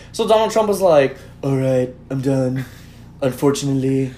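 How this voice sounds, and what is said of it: Imitates another person's voice. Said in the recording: “You do like the best Alec Baldwin impression ... I feel like Alec Baldwin's right in front of me.”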